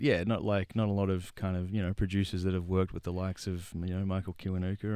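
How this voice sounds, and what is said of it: Usual voice. Nothing is said of it.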